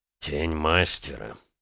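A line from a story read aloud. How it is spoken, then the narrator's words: Colonel muttering. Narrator (Russian): пробормотал полковник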